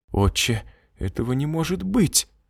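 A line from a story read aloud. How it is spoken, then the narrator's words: Trembling voice. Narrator (Russian): дрожащим голосом обратилась Марина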